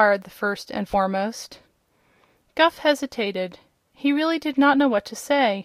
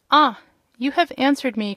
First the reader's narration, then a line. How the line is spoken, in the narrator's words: cried the first and foremost